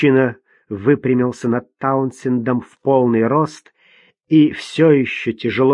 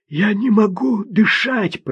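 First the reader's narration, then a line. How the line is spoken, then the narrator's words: Hoarse wheeze. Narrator (Russian): прохрипел Таунсенд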